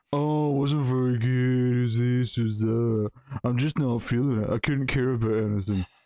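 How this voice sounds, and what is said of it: Imitates another person's voice. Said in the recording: “That's my impression of Connor.”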